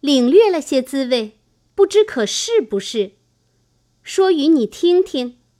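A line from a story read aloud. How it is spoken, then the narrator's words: Laughing. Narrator (Chinese): 香菱笑道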